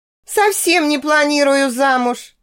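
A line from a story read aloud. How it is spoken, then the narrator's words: Laughing. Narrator (Russian): рассмеялась я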